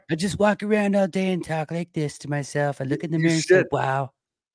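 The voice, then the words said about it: Donald Trump impression. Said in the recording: “doing the Donald Trump voice ... I just like doing Donald Trump. I'm trying to get better at it.”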